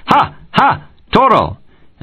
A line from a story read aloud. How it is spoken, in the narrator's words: the men shouted